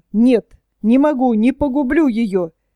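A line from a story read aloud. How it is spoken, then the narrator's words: Sobbing exclamation. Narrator (Russian): Казалось, он рыдал, и, наконец, он воскликнул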